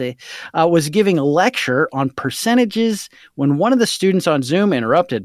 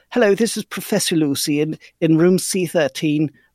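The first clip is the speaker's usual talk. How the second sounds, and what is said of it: Poorly done put-on British accent. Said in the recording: “Professor Lucy has a British accent, so I've been given permission from Abigail to read it as such ... my terrible interpretation of her voice”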